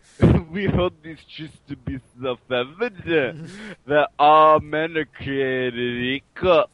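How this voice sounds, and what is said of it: Imitated voice, elongated syllables. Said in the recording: “do a Pauly Shore impression ... That was actually pretty good ... you just add buddy to stuff ... you like almost just elongate every other syllable”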